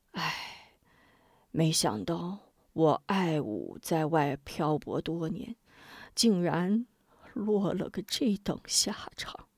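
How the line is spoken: Despairing sigh. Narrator (Chinese): 他绝望地叹了口气

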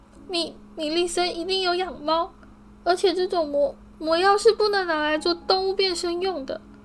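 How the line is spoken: Crying out. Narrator (Chinese): 他哭喊道

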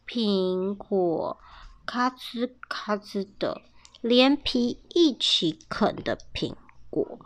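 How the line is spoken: Weak quiet reply. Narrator (Chinese): 比尔有气无力的小声回答

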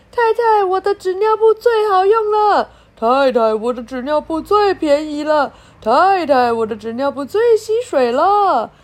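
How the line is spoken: Crowd of salesmen shouting. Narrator (Chinese): 一大群的推销员，大喊

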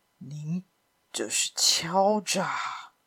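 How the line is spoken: Muttering. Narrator (Chinese): 他喃喃地说

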